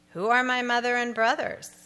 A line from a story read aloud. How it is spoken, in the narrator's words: asked